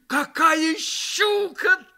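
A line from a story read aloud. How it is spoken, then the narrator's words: Shouted, almost frightened. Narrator (Russian): закричал он почти с испугом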